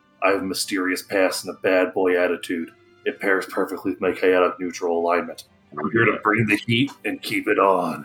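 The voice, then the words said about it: Performed character voice. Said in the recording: “Let me get into this character voice.”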